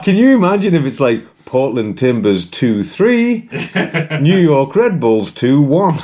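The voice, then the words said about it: Proper BBC football results announcer. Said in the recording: “pretty good imitation of the BBC thing ... very proper, usually it's a female voice”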